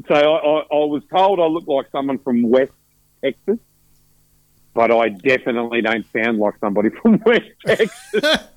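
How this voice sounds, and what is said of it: Broad Australian accent. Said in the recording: “like a Western Australian Victorian truck driver, which is pretty bad ... They just loved your accent.”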